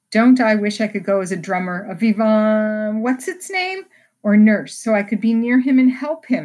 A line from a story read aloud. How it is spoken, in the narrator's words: exclaimed Jo with a groan